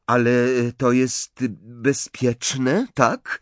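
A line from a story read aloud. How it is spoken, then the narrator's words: Uncertain questioning tone. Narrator (Polish): zapytała Hermiona niepewnym tonem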